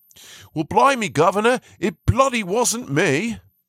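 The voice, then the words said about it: Put-on English Cockney-style accent. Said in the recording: “See, that was an English accent. I don't even know if I'm all that good at that.”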